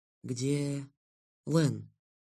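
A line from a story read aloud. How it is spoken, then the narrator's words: Faint terrified whisper. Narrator (Russian): обмирая, прошептал я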